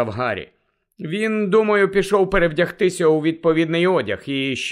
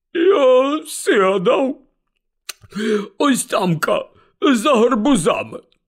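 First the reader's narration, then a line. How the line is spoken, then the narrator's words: Strangled voice. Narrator (Ukrainian): здушеним голосом сказав Гегрід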